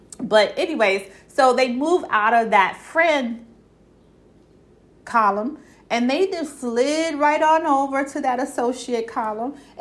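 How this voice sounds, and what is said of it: Brooklyn accent, tired voice. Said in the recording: “I'm really tired. My country accent coming out, my Brooklyn accent coming out”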